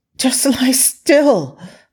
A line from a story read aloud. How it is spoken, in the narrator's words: Lo Fei yelped